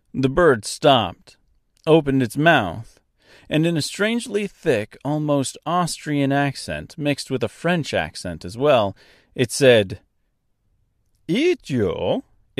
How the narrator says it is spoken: It laughed

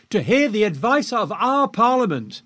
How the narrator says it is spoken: shouted back

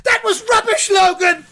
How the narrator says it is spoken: another one shouts

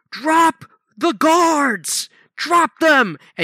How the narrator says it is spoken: these six armed soldiers surround him and shout

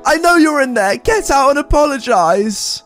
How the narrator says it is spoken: Shocked, she ran up with her entitled kid and my mother, banging on the door screaming

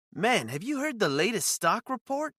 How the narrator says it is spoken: Brad called me up, his voice teetering between excitement and disbelief

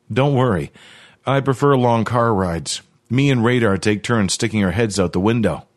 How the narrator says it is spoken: he chuckled

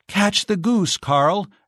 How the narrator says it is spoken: exclaimed Giselle

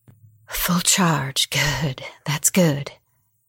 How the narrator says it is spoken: muttered

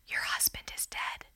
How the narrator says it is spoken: a nurse leans over to her and whispers

